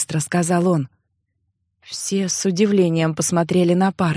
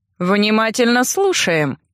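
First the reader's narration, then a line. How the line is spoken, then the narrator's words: Snide, smiling. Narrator (Russian): ехидно улыбнулся Аотхен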